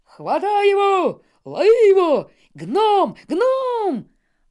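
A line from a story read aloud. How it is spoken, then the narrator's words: Yelling with all their might. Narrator (Russian): Орали они, что есть мочи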